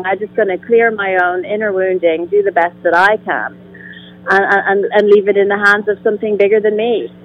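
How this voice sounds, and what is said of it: Irish accent. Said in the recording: “you're have a wonderful accent... I'm from Ireland.”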